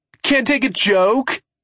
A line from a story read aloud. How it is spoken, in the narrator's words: he yells